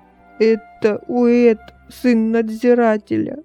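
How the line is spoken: Sobbing. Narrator (Russian): зарыдала Эммис

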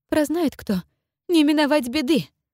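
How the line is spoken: Ominous. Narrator (Russian): зловеще добавила боярыня Ярославны

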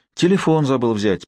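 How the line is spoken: Feigned sigh. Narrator (Russian): притворно вздохнул

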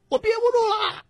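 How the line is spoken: Excited shouting. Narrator (Chinese): 他更来劲了，大喊

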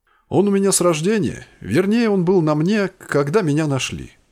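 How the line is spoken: Plain. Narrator (Russian): ответил я

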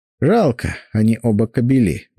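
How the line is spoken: Sigh. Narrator (Russian): вздохнул Сеня

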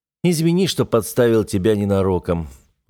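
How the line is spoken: Sighing. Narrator (Russian): вздохнул я

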